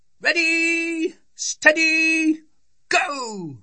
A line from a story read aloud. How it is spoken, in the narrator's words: they shouted